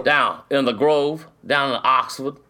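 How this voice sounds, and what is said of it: Put-on old Southern accent. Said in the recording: “I got to work on that accent. Old Southern.”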